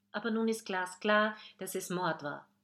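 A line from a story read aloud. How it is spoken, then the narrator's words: Excited answer. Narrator (German): antwortet Charlotte aufgeregt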